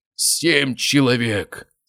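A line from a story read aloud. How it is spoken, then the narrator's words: Moaning. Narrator (Russian): стонал он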